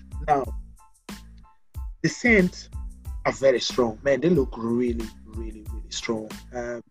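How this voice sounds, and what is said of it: French accent. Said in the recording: “I can't pronounce the name ... because I've got a French accent.”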